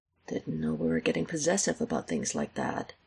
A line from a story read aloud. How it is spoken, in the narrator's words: he mutters